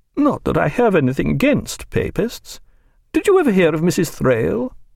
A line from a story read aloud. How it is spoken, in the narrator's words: she said in a musing voice